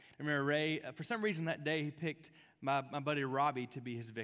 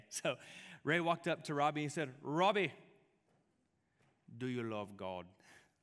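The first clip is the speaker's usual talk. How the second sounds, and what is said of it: Put-on Caribbean island accent. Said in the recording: “Ray was from the islands. I don't mean this, I'm not trying to like make fun of him with my accent.”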